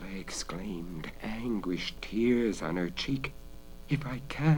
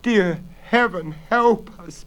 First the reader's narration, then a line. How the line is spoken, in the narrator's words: Bella sobbed